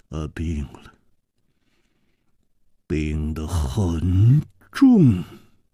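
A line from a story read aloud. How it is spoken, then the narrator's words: Heavy sigh, gloomy. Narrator (Chinese): 左青侯沉重地叹息了一声，黯然说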